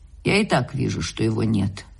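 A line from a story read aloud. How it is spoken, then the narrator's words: Low-voiced reply. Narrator (Russian): вполголоса отвечала Марья Павловна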